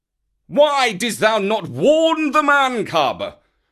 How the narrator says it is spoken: he roared to poor Baloo

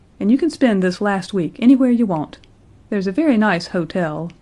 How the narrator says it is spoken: said coldly

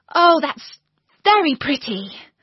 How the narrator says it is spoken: cried Alice

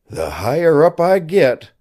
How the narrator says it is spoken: he panted

